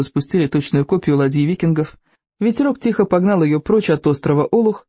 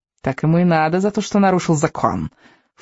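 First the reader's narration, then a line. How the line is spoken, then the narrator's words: Angry snort. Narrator (Russian): фыркнула гневица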